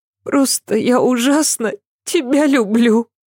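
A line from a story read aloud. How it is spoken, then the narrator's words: Sobbing. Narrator (Russian): Ася всхлипнула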